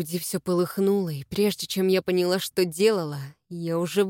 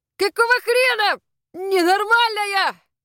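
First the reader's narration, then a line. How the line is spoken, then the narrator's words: Yelling. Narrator (Russian): завопил Эйрон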